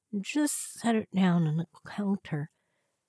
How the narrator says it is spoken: mumbled, holding a bobby pin in the side of her mouth

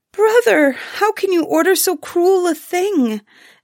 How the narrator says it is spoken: Ilona cried, bursting into tears

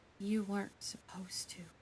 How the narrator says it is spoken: she says softly

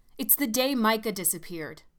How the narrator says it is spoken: I shouted at her

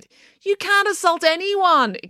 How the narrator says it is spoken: exclaimed Mr

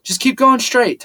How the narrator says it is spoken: Tyler yelled

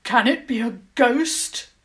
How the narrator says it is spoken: Lord Clarthen demanded angrily

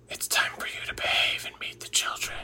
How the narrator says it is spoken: the entity lifts her up face to face and whispers

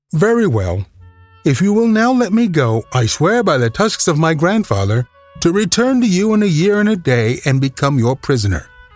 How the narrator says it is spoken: he said, with another careless laugh

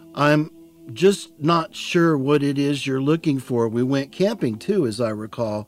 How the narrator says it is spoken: her voice was reassuring

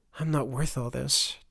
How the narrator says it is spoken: Turner muttered

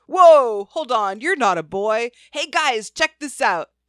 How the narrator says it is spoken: the man yelled to his friends

